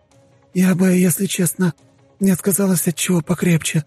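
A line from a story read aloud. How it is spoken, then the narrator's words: Rasped. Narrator (Russian): прохрипела она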